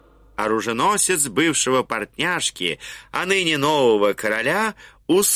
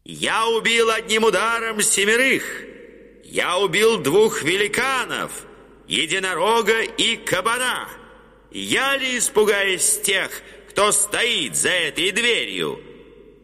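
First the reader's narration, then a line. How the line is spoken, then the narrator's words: Loud. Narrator (Russian): он сказал громко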